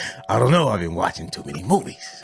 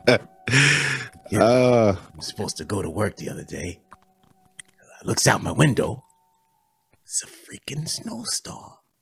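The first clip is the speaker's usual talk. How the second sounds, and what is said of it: Wise guy character voice. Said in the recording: “I've been talking like a wise guy to myself for the last hour.”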